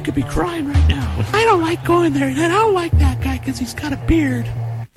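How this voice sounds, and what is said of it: High-pitched imitation of another person. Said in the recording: “high-pitched Tony ... my impersonation of Nat”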